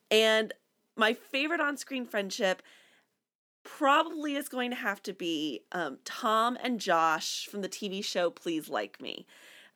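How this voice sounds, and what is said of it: Congested, stuffy-nosed voice. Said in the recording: “the reason I sound so awful to any of our regular listeners is because I have a very stuffy nose”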